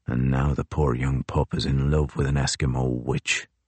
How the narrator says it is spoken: Crozier mutters aloud

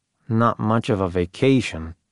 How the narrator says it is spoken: I grumbled

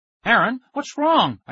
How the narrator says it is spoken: I cried

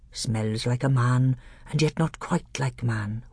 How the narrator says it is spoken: whispered Truffle Hunter

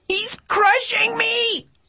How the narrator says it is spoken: I shrieked

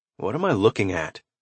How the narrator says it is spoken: Talon asked

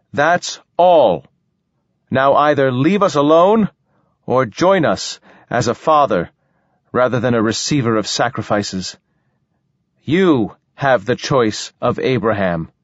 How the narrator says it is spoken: Sol cupped his hand to his mouth and shouted

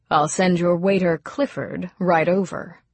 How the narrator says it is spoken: in a rather stiff voice

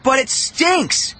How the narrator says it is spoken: Dwayne cried

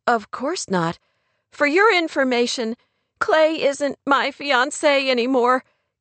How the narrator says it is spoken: Kate blurted, her voice trembling

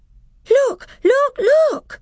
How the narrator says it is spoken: cried Lucy

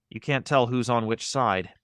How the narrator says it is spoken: she said quietly

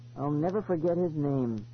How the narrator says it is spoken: Eloise said sadly

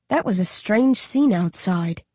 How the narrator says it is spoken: Josh murmurs distastefully

